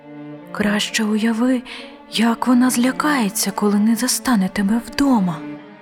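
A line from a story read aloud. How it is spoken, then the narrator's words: Whispered. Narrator (Ukrainian): прошепотів ангел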